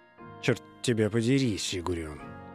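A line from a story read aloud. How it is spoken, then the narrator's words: Defeated grumble. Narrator (Russian): проворчала она, поняв наконец, что потерпела поражение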